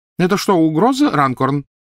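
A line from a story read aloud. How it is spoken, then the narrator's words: Loud inquiry. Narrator (Russian): громко осведомился мистер Уизли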